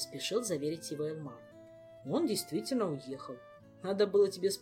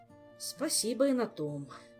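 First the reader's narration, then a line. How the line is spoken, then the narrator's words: Sigh. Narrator (Russian): вздохнул король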